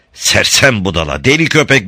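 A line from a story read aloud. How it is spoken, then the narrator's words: Inner silent shout. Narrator (Turkish): diye bağırdı içinden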